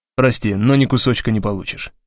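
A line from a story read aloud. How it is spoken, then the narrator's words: Plain. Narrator (Russian): сказал я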